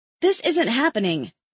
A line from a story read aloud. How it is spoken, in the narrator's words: I blurt out